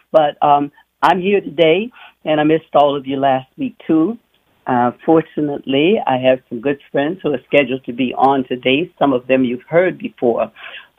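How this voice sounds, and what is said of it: Sick, slightly funny-sounding voice. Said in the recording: “my voice is sounding a little funny, it's because I have a cold ... came back with a really bad cold”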